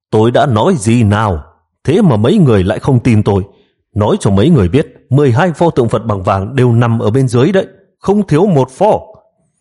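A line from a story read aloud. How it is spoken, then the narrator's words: Loud voice. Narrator (Vietnamese): Hắn lớn tiếng nói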